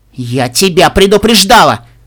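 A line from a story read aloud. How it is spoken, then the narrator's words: Shouted. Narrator (Russian): выкрикнула Тиара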